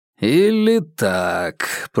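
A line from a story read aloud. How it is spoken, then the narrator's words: Drawled. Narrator (Russian): протянул руководитель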